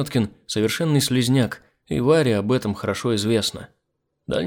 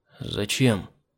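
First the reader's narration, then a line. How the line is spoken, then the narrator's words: Quiet question. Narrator (Russian): Тихо, спросил я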